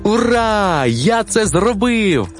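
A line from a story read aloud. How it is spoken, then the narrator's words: Joyful exclamation. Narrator (Ukrainian): радісно вигукнув бик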